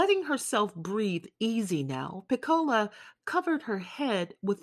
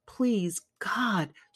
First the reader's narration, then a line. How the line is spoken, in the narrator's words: she whispered in the palm of her hand